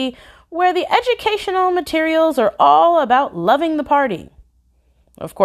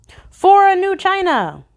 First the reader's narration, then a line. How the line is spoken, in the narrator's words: yelled, just before sacrificing himself